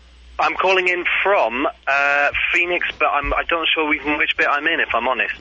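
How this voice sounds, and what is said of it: Welsh British accent. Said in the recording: “you're speaking with an accent not native to Arizona ... I'm from the United Kingdom. I'm actually from South Wales in the United Kingdom”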